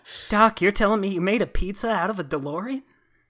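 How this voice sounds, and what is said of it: Wimpy Marty McFly impression. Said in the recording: “My Marty impression is just making him sound like the wimpiest, shittiest asshole.”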